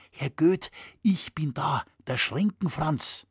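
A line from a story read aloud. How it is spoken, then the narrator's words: Softly called. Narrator (German): rief er ihm leise zu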